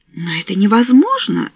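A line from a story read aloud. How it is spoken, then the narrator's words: Exclaimed. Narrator (Russian): воскликнула она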